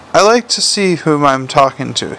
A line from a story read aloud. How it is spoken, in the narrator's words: he said